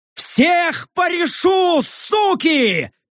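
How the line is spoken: Yelling while running. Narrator (Russian): орал я, переходя на бег

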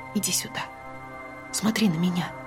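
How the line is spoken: Quiet speech. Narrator (Russian): тихо сказала

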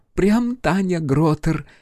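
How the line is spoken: Giggle. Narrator (Russian): хихикнула Стася

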